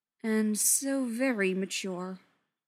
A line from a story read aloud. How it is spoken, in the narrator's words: Yanto drawled